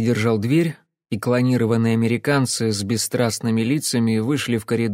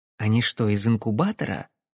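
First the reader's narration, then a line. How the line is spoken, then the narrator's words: Loud, pointed whisper. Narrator (Russian): прошептала Кэсси, но так, чтобы услышал не только я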